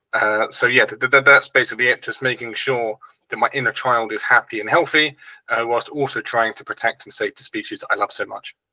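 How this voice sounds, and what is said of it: British accent. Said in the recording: “Hence the British accent.”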